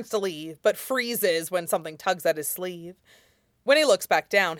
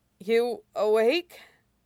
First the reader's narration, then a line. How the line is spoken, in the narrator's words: Wei Wuxian asks, his voice more hoarse than intended